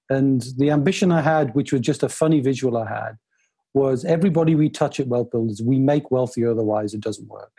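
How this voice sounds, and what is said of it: Northeast English Newcastle accent. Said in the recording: “trying to work out where the accent is from. I'm a Northeasterner. I grew up in Newcastle.”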